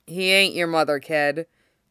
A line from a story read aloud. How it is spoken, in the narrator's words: Kurama says dryly